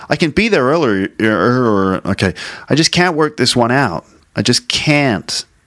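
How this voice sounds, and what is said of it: Put-on American English accent. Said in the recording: “let me read some of these in an American accent.”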